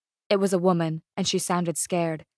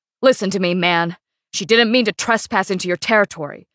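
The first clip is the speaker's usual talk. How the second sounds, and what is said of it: Deep male character voice. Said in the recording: “the man again with the deep voice.”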